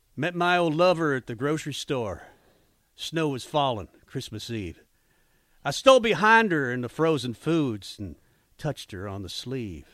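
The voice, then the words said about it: Put-on country accent reading lyrics. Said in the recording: “I read the lyrics to a pop song today ... with a country accent.”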